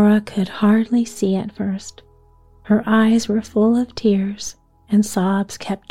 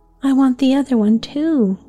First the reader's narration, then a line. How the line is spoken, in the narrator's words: Laura sobbed loudly